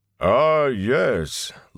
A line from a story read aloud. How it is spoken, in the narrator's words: Loyal boomed